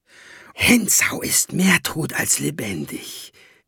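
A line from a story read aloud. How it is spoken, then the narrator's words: Hissing. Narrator (German): zischte sie Jacob zu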